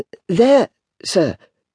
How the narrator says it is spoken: timidly explained

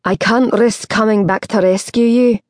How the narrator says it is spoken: he called, hoping she could hear him above the roar of the relentless surf

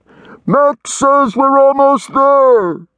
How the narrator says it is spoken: His voice echoed along the long, dark tunnel and came back amplified, enlarged

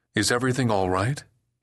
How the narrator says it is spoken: asked anxiously

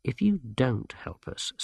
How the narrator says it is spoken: said Masklin quietly

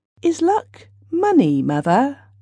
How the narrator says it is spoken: he asked rather timidly

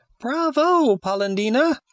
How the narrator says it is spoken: exclaimed the same little voice

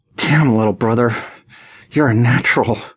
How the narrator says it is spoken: I gasped, between clenched teeth, struggling for control

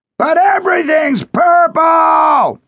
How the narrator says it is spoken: Otto shouted

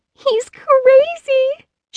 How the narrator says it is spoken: she shrieked

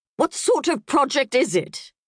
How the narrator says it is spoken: Peggy roared

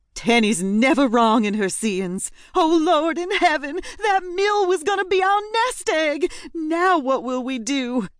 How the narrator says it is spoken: she wailed loudly

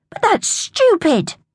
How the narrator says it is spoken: Tom cried

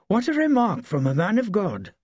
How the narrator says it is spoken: exclaimed

